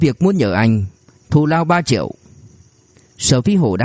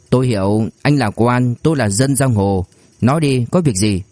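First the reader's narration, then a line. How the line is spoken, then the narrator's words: Dry, cold laugh. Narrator (Vietnamese): Sở Phi Hổ cười nhạt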